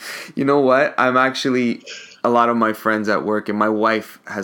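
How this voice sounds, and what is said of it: Usual voice. Nothing is said of it.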